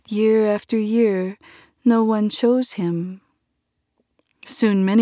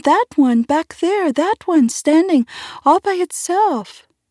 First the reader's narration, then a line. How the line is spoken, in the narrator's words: cried one of the children